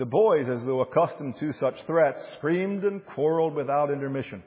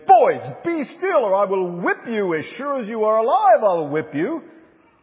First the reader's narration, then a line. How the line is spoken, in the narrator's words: an irritated voice, he exclaimed